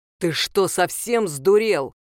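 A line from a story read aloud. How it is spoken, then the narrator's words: Barked over the phone. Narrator (Russian): рявкнула трубка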